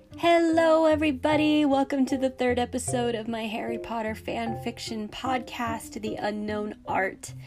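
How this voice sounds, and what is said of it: Congested voice from a cold. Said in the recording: “as you can probably hear, I have a bit of a cold,”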